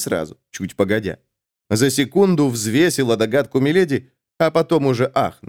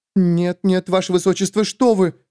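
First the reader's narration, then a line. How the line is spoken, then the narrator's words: Frightened gasp. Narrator (Russian): испуганно ахнула Бернадетт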